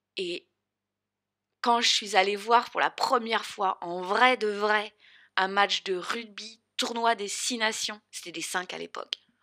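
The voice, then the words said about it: Strong southern French accent. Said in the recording (French): “vous connaissez mon, mon grand accent du Sud”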